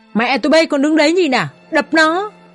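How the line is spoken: Pained loud shout. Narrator (Vietnamese): ôm ngực và hét lớn

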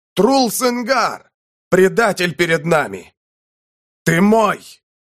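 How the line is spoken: Loud shouting. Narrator (Russian): Саур кричал громче

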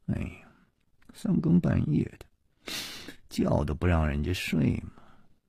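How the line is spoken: Grumbling mutter. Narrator (Chinese): 两个人都是满脸的不高兴，夜里还喃喃地嘀咕着说

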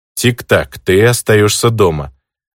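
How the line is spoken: Stern. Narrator (Russian): строго заявил я

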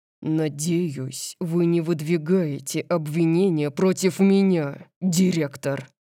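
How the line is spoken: Low menacing growl. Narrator (Russian): прорычал Дариус, угрожающе низким голосом

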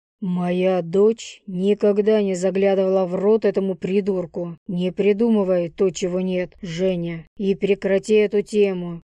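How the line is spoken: Rough, harsh. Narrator (Russian): грубо произнес отец

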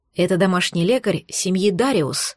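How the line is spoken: Whisper in ear. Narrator (Russian): прошептал мне на ухо Маркус

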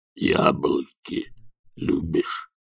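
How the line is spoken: Grumbling. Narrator (Russian): проворчал Банджо

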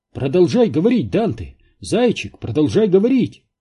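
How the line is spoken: Exclaiming. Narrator (Russian): воскликнула Синтия

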